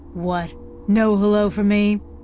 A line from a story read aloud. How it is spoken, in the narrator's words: Jenks grumbled